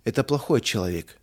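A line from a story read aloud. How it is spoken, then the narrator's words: Sad. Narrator (Russian): печально заключил Рудик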